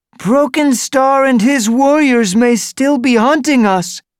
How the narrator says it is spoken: A young apprentice wailed

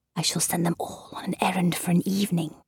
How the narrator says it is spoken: whispered

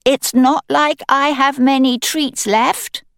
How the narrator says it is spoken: I say, to make my voice carry to the kitchen

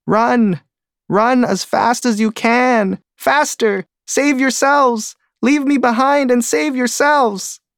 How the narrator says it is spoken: a turtle, who screams

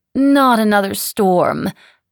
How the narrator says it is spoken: moaned the Baronessa

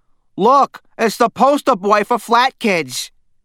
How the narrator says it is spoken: A beefy boy from Stanley's class called out

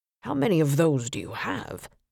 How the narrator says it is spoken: Don muttered

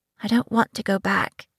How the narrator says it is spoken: Lys said

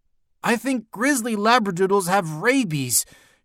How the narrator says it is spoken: shouted Alexia

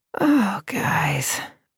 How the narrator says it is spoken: Anna muttered

